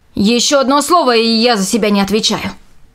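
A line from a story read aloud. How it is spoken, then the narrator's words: Angry blacksmith. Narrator (Russian): сердито ответил кузнец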